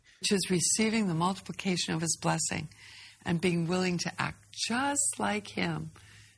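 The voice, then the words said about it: Sing-song kindergarten teacher voice. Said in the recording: “This is like her kindergarten teacher voice. It's like creeping me out.”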